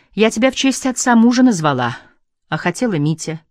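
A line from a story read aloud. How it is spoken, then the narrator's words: Sighing mother. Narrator (Russian): вздохнула мать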